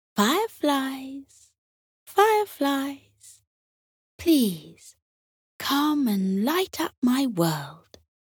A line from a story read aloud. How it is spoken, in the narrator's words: Tilly called out, softly and gently